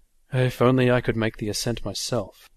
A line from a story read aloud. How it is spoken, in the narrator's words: sighed